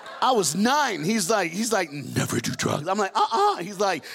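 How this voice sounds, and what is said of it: Usual voice. Nothing is said of it.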